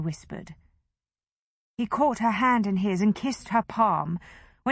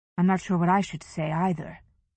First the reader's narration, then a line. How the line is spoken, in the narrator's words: he said